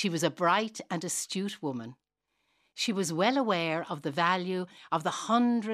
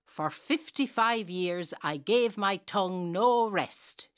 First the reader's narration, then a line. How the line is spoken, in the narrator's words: she said